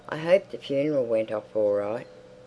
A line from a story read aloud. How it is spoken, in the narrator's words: because these people set such store by funerals, he said kindly